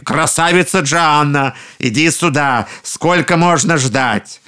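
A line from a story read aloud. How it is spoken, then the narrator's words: Ogres shouting. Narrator (Russian): Через минуту людоеды опять закричали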